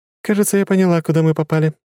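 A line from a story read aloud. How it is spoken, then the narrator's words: Giggled. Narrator (Russian): хихикнула Лора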